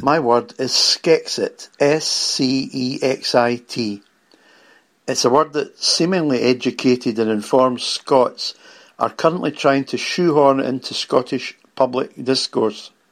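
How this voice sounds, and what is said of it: Scottish accent. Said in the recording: “you have a kick-ass accent”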